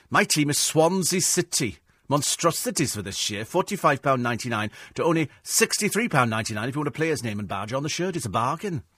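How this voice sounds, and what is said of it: Put-on Welsh accent. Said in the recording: “I think my Welsh accent's definitely improving. I mean, it's definitely getting a lot better.”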